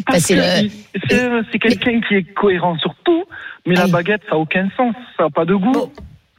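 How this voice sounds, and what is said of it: Slight regional southern French accent. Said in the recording (French): “est de Toulouse ... on a le petit accent”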